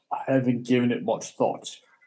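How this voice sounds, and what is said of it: Put-on British accent. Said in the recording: “I don't know why I did it with a British accent”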